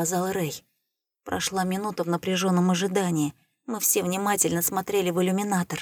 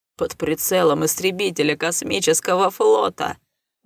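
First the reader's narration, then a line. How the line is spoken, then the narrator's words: Silly giggle. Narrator (Russian): глупо хихикнул Траск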